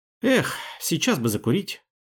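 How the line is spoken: Sigh. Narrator (Russian): вздохнул Юджин Сернан

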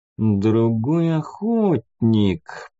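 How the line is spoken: Drawled. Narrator (Russian): протянул Шелтон

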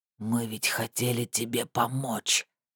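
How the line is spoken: Hoarse rasp. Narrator (Russian): прохрипел

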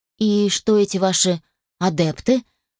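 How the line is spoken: Slightly crestfallen voice. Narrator (Russian): поинтересовалась слегка упавшим голосом

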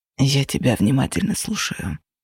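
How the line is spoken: Whispered. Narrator (Russian): прошептал Феникс

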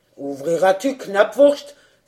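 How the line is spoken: Huntsman's exclamation. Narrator (French): s'écria le piqueur

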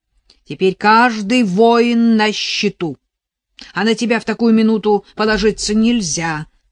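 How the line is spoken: Hiss in the ear. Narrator (Russian): прошипел около ее уха голос отца Модеста

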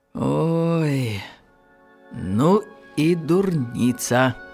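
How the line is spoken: Calm. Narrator (Belarusian): Палага Хахлова спакойна сказала

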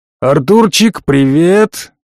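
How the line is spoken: Roar. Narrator (Russian): проревел хозяин кабинета

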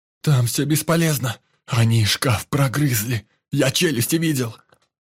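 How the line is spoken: Frightened speech. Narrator (Russian): испуганно говорил индус

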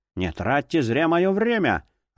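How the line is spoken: Irritated curt retort. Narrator (Russian): раздраженно бросил профессор

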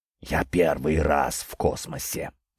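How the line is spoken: Spellbound whisper. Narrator (Russian): прошептал завороженный Петр

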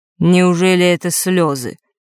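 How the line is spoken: Cold question. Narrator (Russian): холодно спросил Нортон-старший

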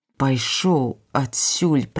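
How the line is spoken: Hissing. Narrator (Belarusian): прашыпеў ён

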